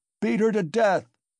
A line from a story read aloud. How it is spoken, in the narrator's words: cried Mikolka